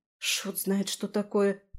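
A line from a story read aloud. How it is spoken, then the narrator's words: Muttering, at a loss. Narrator (Russian): пробормотала я, не зная, что делать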